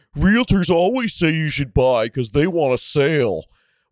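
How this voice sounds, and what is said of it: Mocking, dumb-sounding voice. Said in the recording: “their stupid, dumb voice”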